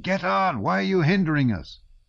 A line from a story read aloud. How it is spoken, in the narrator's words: One was shouting